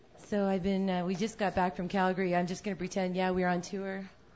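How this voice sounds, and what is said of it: Slightly scratchy, worn voice. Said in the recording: “stayed up too late and laughed and talked too much, so my voice is a little bit scratchy”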